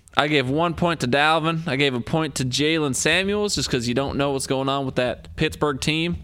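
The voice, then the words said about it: Put-on accent, annoying. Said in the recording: “I need to lose this accent ... annoying”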